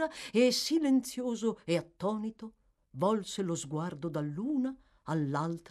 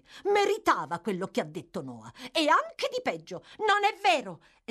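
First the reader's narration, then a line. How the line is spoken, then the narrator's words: Exclaimed. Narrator (Italian): esclamò Oliver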